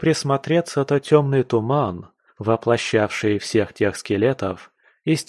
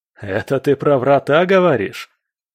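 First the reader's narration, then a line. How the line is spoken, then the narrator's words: Laughing. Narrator (Russian): рассмеялся самый смелый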